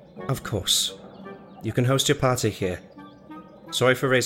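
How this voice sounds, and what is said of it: Usual voice. Nothing is said of it.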